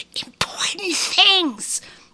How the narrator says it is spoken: Opal said, hissing

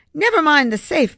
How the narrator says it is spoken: babbled frantically

